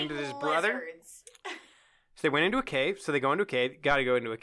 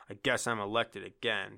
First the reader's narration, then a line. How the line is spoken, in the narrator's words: Chet grumbled